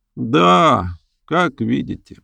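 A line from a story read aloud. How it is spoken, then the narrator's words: Gloomy reply. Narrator (Russian): мрачно ответил Джордж Браун, он же Трип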